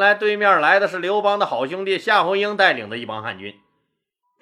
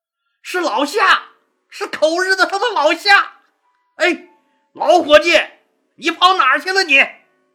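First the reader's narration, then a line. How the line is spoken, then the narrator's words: Delighted shout. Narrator (Chinese): 樊哙惊喜的大喊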